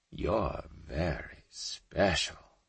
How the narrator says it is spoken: he spoke softly, almost shyly

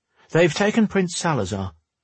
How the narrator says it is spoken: Xavier said quickly

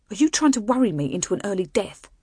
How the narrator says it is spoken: she snapped

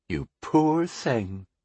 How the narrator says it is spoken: she cooed mockingly

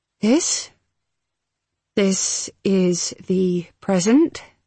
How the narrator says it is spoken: she said slowly

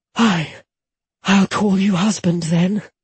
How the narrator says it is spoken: she gasped as his tongue rasped across her nipple

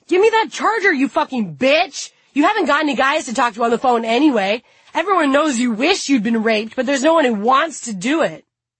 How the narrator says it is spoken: yell

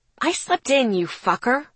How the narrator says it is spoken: snapped

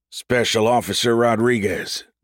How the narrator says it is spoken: General Hyrie said

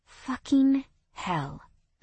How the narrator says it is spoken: I breathed out

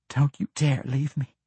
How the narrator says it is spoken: pleaded

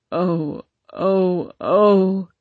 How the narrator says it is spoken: he sobbed

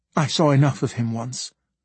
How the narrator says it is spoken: Quickly I said

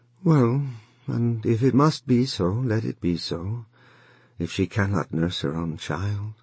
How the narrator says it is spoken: Wang Lung said sadly, although why he was sad he did not know

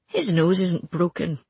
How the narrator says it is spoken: he grunted again, and I realized he was amused

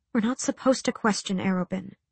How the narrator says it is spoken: she murmured

